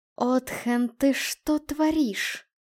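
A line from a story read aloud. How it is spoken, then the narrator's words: Hissed through clenched teeth. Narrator (Russian): сквозь сжатые зубы процедила Солома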